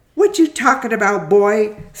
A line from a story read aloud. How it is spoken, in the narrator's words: snapped Doris